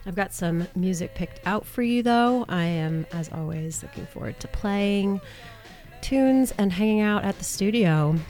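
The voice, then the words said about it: Nasal, congested sick voice. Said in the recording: “I've been sick since last week... in my nasally voice”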